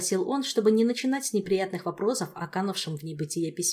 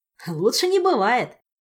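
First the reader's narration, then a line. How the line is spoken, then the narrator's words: Joyful grin. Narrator (Russian): радостно ухмыльнулся Толик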